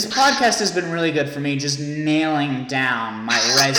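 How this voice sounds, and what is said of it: Usual voice. Nothing is said of it.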